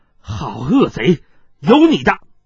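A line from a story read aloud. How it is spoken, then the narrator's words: Angry shout. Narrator (Chinese): 草丛中怒喝道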